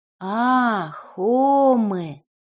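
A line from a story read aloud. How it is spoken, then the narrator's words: Relieved, quiet exhale. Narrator (Russian): с облегчением произнес Никита и украдкой выдохнул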